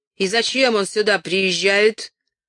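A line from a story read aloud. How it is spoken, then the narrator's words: Blacksmith's shout. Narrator (Russian): крикнул какой-то кузнец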